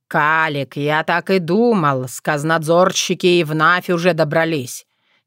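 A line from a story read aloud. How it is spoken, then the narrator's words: Displeased grumble. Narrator (Russian): недовольно проворчал Кощей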